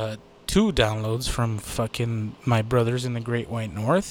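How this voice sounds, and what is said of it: Usual voice. Nothing is said of it.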